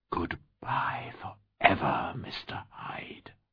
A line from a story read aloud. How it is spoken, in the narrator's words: I whispered